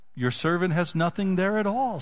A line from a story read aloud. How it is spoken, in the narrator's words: she said